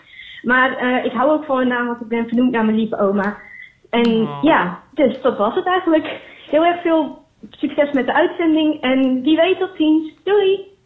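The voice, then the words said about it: Cheerful voice, Zeeland regional accent. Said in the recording (Dutch): “wat een heerlijke stem heeft zij ... Ze heeft een fantastische stem. De toon is heel vrolijk ... een tongval die uh, wel mij heel Zeeuws aandoet ... ik wou zeggen accent. En toen dacht ik, nee, het is misschien dialect ... die me een beetje aan Franka Treur doet denken”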